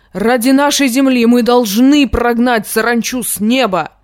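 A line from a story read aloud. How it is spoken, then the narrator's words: Shouted. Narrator (Russian): закричал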